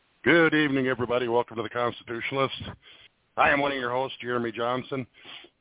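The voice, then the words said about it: Out of breath, panting speech. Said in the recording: “If it sounds like I'm out of breath, I am. ... I ran up my stairs as fast as I could”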